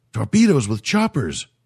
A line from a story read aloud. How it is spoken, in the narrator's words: cried the alien